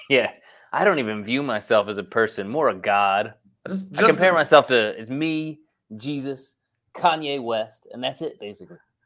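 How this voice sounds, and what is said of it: Self-parody in a mismatched accent. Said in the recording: “my impersonation of myself, I'm doing the wrong accent”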